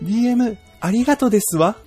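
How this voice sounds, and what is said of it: Falsetto, ladylike character voice. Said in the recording (Japanese): “俺の声でいいのかな、これ。 ... 裏声ちゃんと出そう。”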